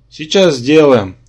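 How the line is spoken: Tired woman's reply. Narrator (Russian): устало ответила Нокхези

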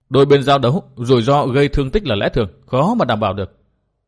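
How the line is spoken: Cold. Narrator (Vietnamese): Tư Mã Minh lạnh lùng nói

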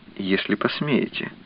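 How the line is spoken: Barely audible addition. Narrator (Russian): чуть слышно добавила

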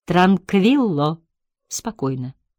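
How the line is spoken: Soft, in Italian. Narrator (Russian): мягко сказал по-итальянски доктор Хорват

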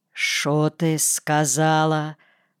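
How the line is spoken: Quiet question. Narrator (Russian): спрашивает Федосевна тихо

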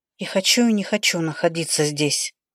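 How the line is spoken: Sigh. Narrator (Russian): вздохнула я

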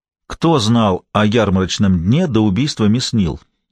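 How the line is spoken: Plain. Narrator (Russian): спросил Гамаш

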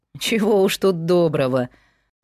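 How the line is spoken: Laughing. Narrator (Russian): засмеялся дядька

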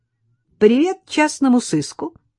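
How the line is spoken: Cheerful exclamation. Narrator (Russian): весело воскликнула

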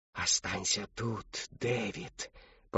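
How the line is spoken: Whispering woman's voice. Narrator (Russian): послышался голос шептуньи

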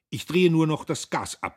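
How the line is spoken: Calling after. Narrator (German): rief ihr nach

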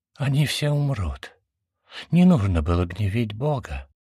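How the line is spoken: Flat, colorless whisper. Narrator (Russian): прошептал Мирами бесцветным голосом

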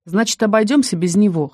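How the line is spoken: Scoffing grunt. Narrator (Russian): хмыкнул Крам

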